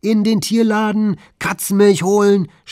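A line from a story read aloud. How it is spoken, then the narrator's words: Shouting. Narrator (German): schreit er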